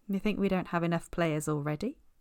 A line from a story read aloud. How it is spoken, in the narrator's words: Steve murmured into his ear from where he'd crept up behind the chair